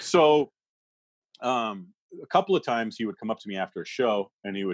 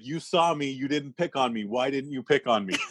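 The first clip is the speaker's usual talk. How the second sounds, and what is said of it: Thick French accent. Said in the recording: “in his thick French accent”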